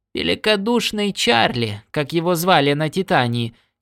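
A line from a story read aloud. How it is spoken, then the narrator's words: Giggling. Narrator (Russian): хихикнула Нова Смит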